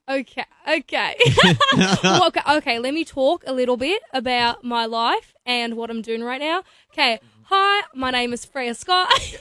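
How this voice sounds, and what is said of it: Put-on Australian accent. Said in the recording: “can you do a good Australian accent? ... How well do you do an Aussie accent? ... It's gone bad. ... That was really good.”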